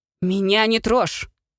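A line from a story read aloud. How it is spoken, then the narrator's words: Mother barking. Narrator (Russian): рявкнула мама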